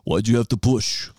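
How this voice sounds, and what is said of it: Imitates another person's voice. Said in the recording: “I wish I could do a better Sylvester Stallone impression. You know, John Rambo.”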